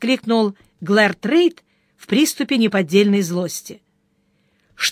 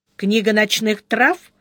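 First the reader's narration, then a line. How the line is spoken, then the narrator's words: Calm. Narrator (Russian): спокойно сказал монах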